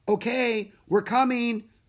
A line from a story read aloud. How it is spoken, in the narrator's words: cried Annie